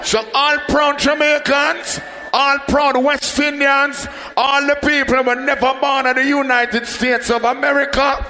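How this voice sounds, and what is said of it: Jamaican accent. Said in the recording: “If you didn't catch my accent, I'm a Jamaican.”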